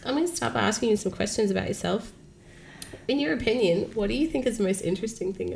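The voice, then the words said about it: Croaky voice from a cold. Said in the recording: “it's a late, croaky one ... I have a cold. I'm a bit croaky.”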